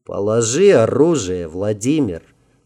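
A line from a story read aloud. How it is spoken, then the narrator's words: Calm, friendly deep bass. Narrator (Russian): спокойно и почти дружелюбно пробасил боцман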